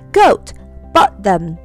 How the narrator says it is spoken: cried

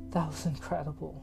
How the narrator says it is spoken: Yasmin breathed

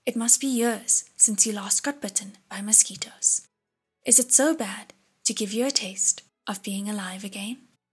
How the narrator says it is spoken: Shilin said warmly

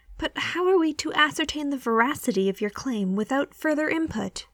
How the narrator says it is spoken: the archivist replies testily

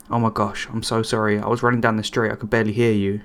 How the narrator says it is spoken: cried

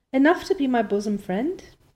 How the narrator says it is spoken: Diana laughed

